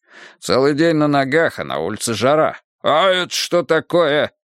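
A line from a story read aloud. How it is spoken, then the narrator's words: Sudden bark. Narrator (Russian): вдруг рявкнул он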